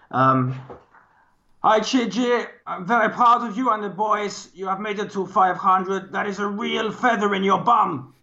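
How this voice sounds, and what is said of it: Put-on foreign accent. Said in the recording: “Maybe something like that, but a better accent.”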